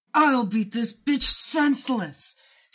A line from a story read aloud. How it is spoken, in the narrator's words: she screamed